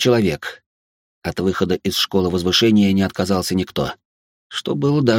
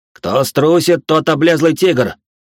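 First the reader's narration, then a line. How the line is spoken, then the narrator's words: Shouting, matching her tone. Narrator (Russian): в тон ей прокричал Кармин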